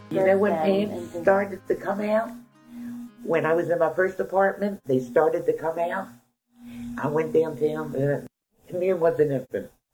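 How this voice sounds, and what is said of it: Baltimore accent. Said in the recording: “my mom's authentic Baltimore accent”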